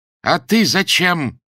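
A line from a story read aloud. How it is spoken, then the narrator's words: Stern, loud question. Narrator (Russian): строго и громко спросила убогая у Андрея Ильича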